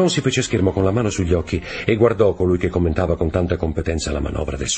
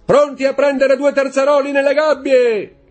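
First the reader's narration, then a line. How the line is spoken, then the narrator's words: Captain's shout. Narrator (Italian): gridò il capitano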